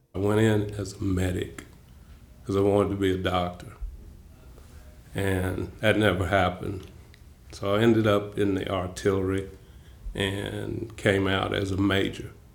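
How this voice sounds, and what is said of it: Slow Southern US accent. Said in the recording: “Excuse my southern accent, I talk slow.”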